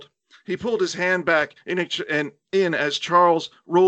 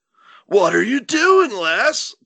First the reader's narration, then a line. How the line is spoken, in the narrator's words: Dean shouted